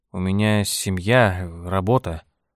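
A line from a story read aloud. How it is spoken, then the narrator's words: Mumbling. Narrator (Russian): промямлил он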